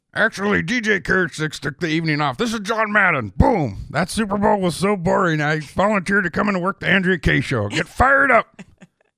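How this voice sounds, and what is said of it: Imitates another person's voice. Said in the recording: “Good impersonation there. I'm, I'm only going to give it one thumb up”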